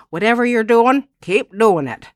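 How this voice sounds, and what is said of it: Imitated Southern accent. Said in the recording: “In her southern accent.”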